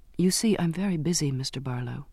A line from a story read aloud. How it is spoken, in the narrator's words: I murmured